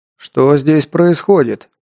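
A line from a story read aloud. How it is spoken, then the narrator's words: Stern middle-aged man asking. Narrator (Russian): строго спросил мужчина лет 40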